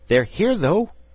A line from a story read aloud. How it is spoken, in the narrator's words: cried Scraps